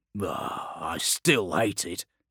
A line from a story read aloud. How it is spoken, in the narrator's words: he grumbled